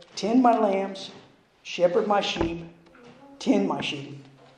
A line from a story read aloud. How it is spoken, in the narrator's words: The great shepherd would gently say